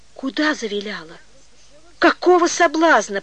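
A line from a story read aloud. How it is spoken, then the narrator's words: Hurt exclamation. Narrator (Russian): почти с искренней обидой воскликнула Вера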